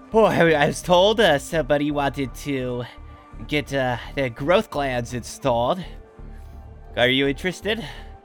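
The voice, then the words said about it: Out of breath, panting speech. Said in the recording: “You seem a little out of breath there. ... I ran all the way here. ... Just catch your breath real quick.”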